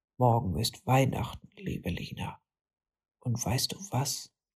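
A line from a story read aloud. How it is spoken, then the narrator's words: Whispering yeti. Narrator (German): flüsterte der Yeti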